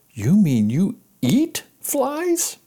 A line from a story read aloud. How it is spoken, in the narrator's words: gasped Wilbur